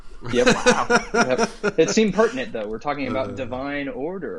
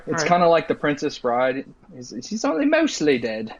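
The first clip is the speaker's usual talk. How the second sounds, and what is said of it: Bad put-on English accent. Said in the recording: “that's a really bad English accent”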